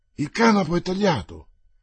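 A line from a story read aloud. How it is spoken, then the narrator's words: Sailor exclaiming. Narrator (Italian): esclamò il marinaio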